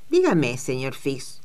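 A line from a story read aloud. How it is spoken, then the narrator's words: Malicious questioning tone. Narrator (Spanish): le preguntó en tono malicioso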